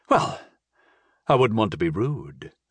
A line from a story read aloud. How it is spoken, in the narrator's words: I sighed